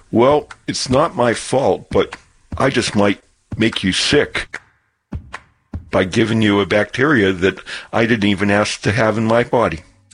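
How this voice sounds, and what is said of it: Character voice of a tick. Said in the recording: “best impression of a tick”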